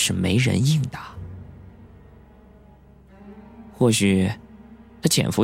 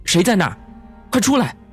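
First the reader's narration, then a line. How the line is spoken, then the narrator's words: Loud shout. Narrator (Chinese): 宋小沫又提高了声音喊道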